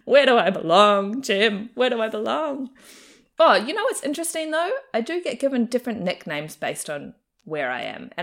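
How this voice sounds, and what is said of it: Mixed New Zealand-Australian accent. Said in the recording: “teased here a little bit for having a Kiwi accent ... tease me for sounding Australian ... a half and half accent”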